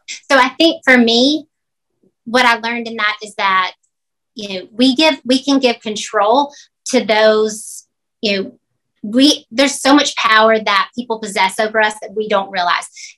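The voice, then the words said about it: Southern American drawl. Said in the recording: “that Southern drawl ... I love your Southern accent ... I just love the way she talks”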